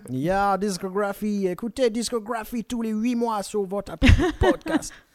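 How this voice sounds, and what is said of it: Exaggerated mocking put-on accent. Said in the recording (French): “ce vieil accent raciste que je viens de faire”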